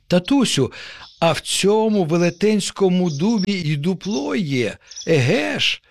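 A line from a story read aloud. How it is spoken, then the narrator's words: Child's joyful exclamation. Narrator (Ukrainian): радісно вигукнув нащадок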